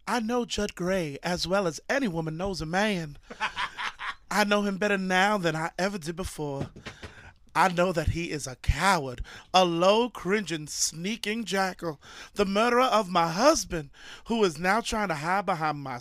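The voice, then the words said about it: Deliberately bad put-on accent. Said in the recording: “I need to do a bad accent... You have to do an accent of some sort”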